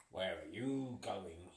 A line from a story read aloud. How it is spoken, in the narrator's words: He growled